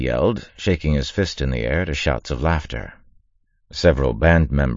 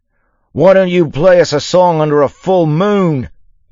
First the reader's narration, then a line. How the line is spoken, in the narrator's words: Yimt yelled